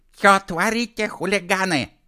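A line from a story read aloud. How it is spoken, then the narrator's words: Angry woman shouting. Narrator (Russian): гневно закричала одна из них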